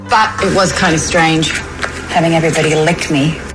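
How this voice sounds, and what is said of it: Put-on Australian accent. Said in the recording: “That was said with an Aussie accent.”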